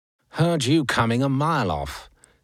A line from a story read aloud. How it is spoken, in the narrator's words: sneered Sir Bertie